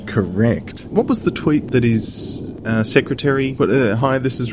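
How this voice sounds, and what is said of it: Usual voice. Nothing is said of it.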